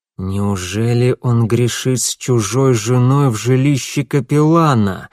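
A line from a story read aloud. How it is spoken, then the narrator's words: Hoarse voice. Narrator (Russian): наконец хрипло произнес он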